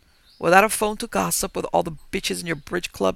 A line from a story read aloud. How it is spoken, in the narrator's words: snapped